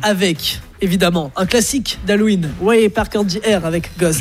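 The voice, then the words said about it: English accent on English names. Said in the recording (French): “J'adore ton accent anglais.”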